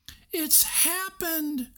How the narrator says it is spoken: she cried

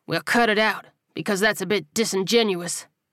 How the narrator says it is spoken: Buddy snarled

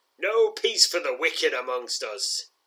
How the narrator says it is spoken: laughs

